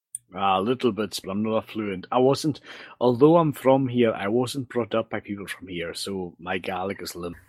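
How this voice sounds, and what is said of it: Scottish accent. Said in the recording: “you could probably guess that from my accent ... I'm from the Isle of Lewis in the northwest, the Outer Hebrides”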